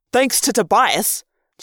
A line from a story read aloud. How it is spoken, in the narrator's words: Jake snapped